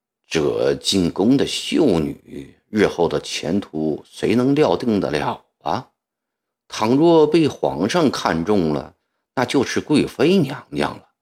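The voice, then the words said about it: Quiet, hushed speaking voice. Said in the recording (Chinese): “凑到了吴唐的耳边，小声地说”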